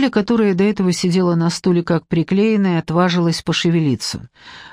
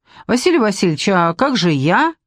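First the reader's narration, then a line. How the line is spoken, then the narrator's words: Squeak. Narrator (Russian): пискнула Ляля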